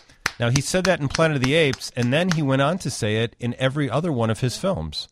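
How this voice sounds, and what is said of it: Usual voice. Nothing is said of it.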